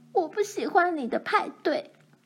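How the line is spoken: Crying. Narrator (Chinese): 奈妮哭着说

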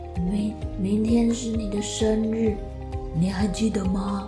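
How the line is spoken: Old man whispering softly. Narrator (Chinese): 豪猪爷爷……小小声的说

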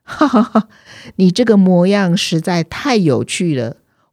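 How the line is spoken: Hearty laughter. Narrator (Chinese): 逗得主人哈哈大笑

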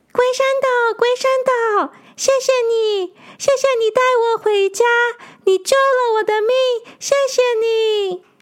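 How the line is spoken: Joyful shouting. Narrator (Chinese): 他在水里开心的大喊着

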